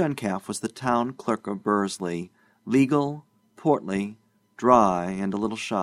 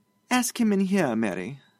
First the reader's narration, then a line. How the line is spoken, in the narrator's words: said sweetly